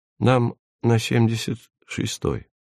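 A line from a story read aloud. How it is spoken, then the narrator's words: Quiet. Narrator (Russian): негромко сказал Эдик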